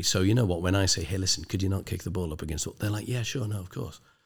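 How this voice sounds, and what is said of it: Quasi-Northern English accent. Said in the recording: “I've got a quasi-Northern accent”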